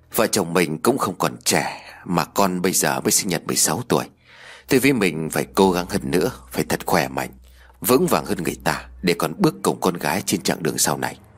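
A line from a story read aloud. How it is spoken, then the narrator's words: Gently smiling. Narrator (Vietnamese): Ông Điền khẽ mỉm cười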